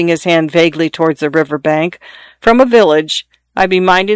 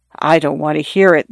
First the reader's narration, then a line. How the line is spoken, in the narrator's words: the young lady said in a low voice